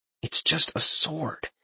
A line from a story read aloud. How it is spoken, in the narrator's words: Talion mumbled almost in a whisper